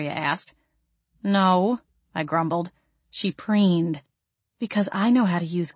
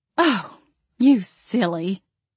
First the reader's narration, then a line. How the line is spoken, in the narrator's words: she chuckled